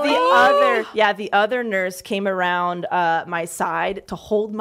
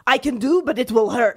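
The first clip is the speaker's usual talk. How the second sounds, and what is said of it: Attempted Russian accent. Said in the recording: “just like a Russian lady with red hair, and was just like, I cannot do a Russian accent”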